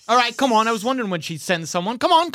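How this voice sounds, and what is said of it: Put-on EastEnder accent. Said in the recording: “My best attempt, my note here is EastEnder accent.”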